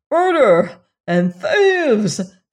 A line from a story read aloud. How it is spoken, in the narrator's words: the king cried